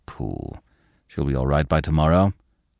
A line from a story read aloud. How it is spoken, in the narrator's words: he calmly